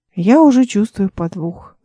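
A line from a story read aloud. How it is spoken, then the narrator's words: Dreamy sigh. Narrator (Russian): вздохнула Эл мечтательно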